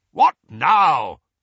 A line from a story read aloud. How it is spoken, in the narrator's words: barked Uncle Vernon